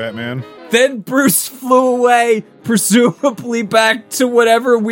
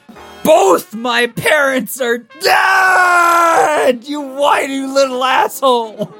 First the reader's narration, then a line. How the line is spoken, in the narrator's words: The oddly clad stranger yelling